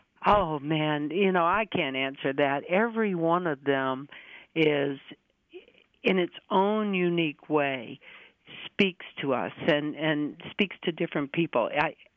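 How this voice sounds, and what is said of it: Slight Southern US accent. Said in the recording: “originally from Mississippi ... in the accent, just a little bit.”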